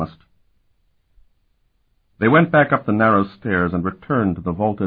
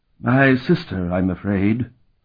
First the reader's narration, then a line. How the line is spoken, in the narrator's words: Count Gassak replied sadly